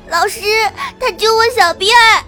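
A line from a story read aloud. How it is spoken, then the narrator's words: Crying child. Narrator (Chinese): 羊角辫哭着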